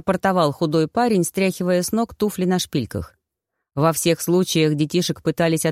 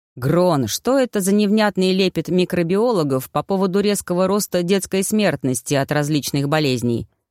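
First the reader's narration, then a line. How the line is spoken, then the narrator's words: Man growling. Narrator (Russian): прорычал брюнет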